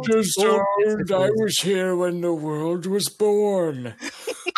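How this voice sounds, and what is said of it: Old man character voice. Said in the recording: “Multicultural, sort of just an old man accent.”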